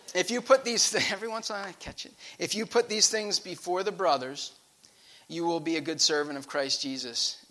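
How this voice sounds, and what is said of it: Rhode Island accent. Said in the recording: “My Rhode Island accent is kicking in.”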